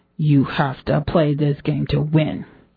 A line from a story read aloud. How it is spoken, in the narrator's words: The host hiss